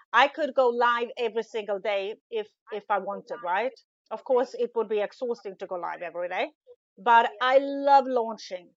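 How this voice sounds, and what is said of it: Non-native English accent. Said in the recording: “English isn't my first language ... my bad accent ... it's way better now than it was ... that accent”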